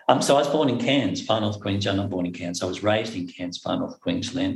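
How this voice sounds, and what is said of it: Australian accent, slides through syllables. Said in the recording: “in Australia, of course, as you can tell from my accent, we kind of slide through that syllables really easily”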